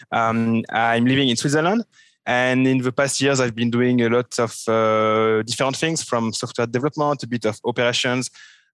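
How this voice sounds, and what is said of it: Strong French accent in English. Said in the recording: “I'm a French guy, which you can figure out from my terrible French accent.”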